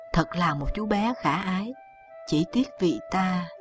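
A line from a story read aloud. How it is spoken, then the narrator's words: Smiling. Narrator (Vietnamese): Lý Tầm Hoan mỉm cười nói tiếp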